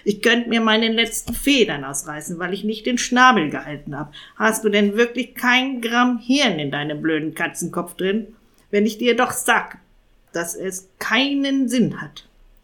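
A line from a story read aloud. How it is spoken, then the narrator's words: Angry shout. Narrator (German): schrie Jakob wütend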